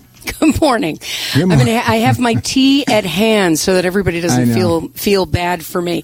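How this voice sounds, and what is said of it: Stuffy, congested voice. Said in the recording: “As you can hear, I have a little bit of a cold”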